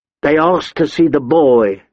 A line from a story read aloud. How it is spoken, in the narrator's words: the armorer said